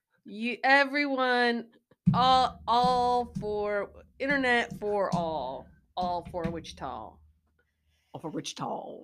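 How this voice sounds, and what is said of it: Midwestern accent. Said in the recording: “I just said that with my Midwestern accent”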